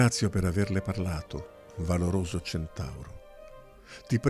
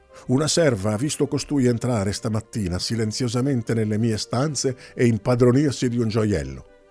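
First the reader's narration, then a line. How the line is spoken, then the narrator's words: Shouting. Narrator (Italian): Emerea gridò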